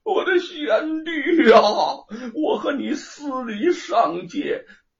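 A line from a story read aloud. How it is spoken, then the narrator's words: Terrified wailing. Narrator (Chinese): 那老魔唬的是魂飞魄散，放声大哭道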